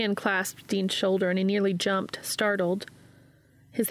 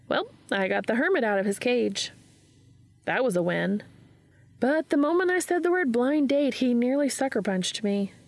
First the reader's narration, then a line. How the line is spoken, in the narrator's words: Gabriel sighed